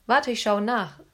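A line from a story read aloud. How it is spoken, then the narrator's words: Plain. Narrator (German): sagte Philipp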